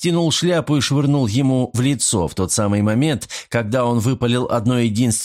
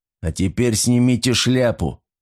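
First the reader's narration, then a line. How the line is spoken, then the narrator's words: Menacing demand. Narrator (Russian): все так же грозно потребовал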